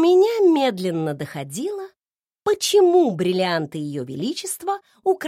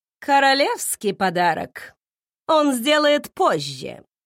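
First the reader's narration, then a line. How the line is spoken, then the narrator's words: Scoffing snort. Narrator (Russian): хмыкнула она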